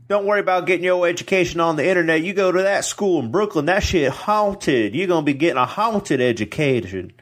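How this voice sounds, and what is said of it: Bad put-on urban cowboy accent. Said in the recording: “shitty urban accent or a shitty cowboy accent? ... Urban cowboy.”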